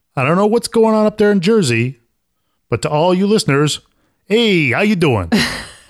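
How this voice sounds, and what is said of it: Put-on New York wise guy accent. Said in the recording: “you keep doing that wise guy accent ... like the mafia ... you're from New York, so you like doing that accent”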